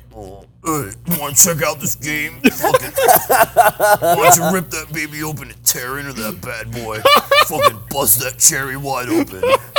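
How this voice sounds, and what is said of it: Imitates another person's voice. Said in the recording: “Your impression of Jack is way better than that. ... That's way better.”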